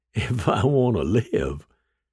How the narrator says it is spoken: The gunman's laugh was a high-pitched cackle

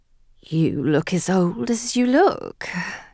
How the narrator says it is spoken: he whispered huskily

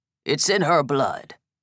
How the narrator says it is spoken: Vale grumbled

